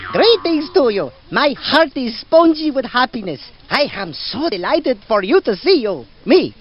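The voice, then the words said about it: Character voice with dreamy foreign accent. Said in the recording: “What a dreamy accent. ... where did this guy learn to talk?”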